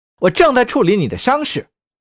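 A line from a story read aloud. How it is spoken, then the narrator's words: Angry woman. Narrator (Chinese): 女人恼怒地说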